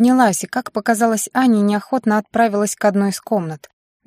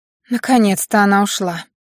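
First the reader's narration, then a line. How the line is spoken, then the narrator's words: Angry exhale. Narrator (Russian): зло выдохнула Доминика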